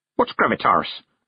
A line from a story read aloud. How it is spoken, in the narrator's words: said Granny Weatherwax sharply